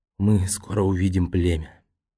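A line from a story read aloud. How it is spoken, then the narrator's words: Barely audible, moved whisper. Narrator (Russian): Нао, взволнованный воспоминаниями, чуть слышно прошептал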